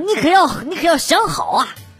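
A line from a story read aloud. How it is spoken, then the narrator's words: Resolute through gritted teeth. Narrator (Chinese): 哥哥一咬牙，一副英雄就义的表情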